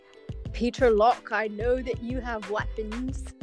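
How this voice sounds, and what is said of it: Put-on British accent. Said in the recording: “That's my best attempt at a British accent. ... It was pretty good.”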